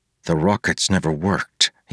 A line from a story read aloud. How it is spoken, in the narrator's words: he muttered